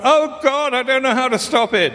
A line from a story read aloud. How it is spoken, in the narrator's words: Panic-stricken, I called out